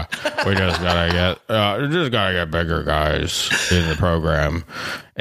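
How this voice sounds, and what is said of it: Imitates another person's voice. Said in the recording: “my best Max impersonation”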